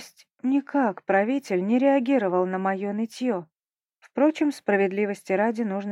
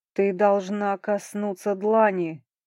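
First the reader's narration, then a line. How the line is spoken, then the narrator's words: Terrible booming voice, lord. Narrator (Russian): страшным голосом прогрохотал в ответ владыка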